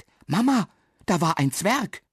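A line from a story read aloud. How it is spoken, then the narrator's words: Excited child. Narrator (German): sagt es aufgeregt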